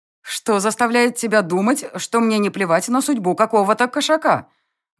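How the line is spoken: Loud question. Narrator (Russian): Громко поинтересовалась я

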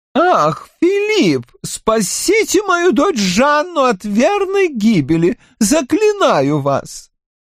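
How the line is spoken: Tragic exclamation. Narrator (Russian): трагически воскликнула Маго

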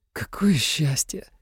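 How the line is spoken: Sighing. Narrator (Russian): вздохнул Тим Таола

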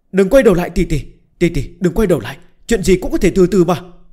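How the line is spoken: Sudden scream. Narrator (Vietnamese): Bạch Tiểu Thuần nhất thời thét lên

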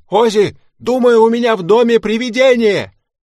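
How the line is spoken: Shouting. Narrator (Russian): Билл позвонил мне и закричал

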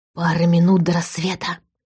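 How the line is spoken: Quiet. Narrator (Russian): тихо сообщил Иван

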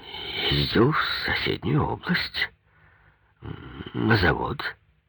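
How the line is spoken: Forced out, strained. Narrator (Russian): выдавил Завьялов

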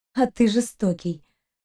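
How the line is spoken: Bitter exhale. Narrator (Russian): горько выдохнула Кристина

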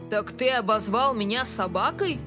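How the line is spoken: Barked. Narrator (Russian): Он рявкнул

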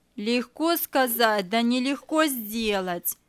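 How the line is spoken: Grumbling. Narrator (Russian): проворчала Мария

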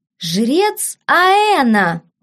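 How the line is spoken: Exclaiming. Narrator (Russian): воскликнул Фабиан

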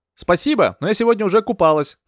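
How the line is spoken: Shouted reply. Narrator (Russian): прокричала в ответ

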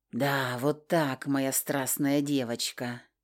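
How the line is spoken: Purring. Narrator (Russian): Промурлыкал МакГрегор

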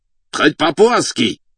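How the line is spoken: Exclaimed. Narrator (Russian): воскликнул Эрдели

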